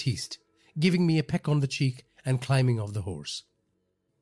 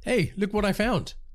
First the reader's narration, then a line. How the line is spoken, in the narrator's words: I called out